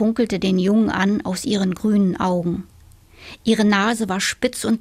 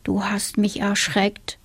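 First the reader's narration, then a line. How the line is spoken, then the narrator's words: Boy speaking quietly. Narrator (German): sagte der Junge leise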